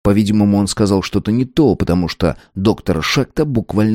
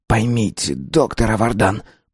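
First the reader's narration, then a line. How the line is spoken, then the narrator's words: Hurried whisper. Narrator (Russian): послышался поспешный шепот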